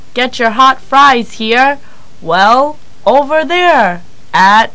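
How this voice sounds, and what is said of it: Imitates a stadium announcer. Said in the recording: “do a great impression of the announcer at the games”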